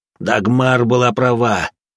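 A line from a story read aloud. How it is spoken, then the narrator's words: Cold, smiling. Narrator (Russian): Сказала моя копия, холодно улыбаясь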